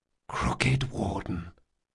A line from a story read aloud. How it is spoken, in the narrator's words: Locke whispered